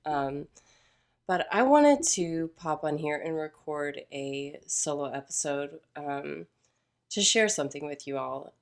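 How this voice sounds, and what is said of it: Voice sounds a little different, unwell. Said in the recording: “I know my voice sounds a little bit different. I'm getting over pneumonia, so I still still sound ... different.”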